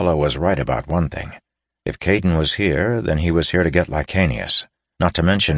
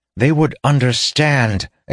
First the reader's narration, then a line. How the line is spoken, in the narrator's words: exclaimed Nethgala in disbelief